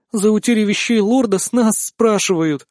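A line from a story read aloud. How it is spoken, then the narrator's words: Near whimper. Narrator (Russian): едва ли не захныкала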